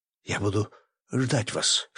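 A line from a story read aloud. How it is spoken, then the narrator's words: Whisper. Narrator (Russian): шепнула она мне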